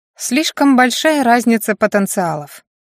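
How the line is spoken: Wry snort. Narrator (Russian): хмыкнула она

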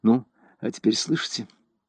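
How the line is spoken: Quiet voice. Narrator (Russian): Селена сказала негромко

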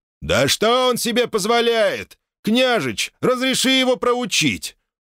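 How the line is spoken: Shouted out. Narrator (Russian): Кто-то из всадников выкрикнул

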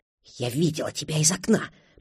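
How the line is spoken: Whispered. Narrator (Russian): прошептала она

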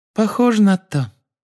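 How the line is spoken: Squeaky voice. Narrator (Russian): Палумны Лавгуд, которая пропищала

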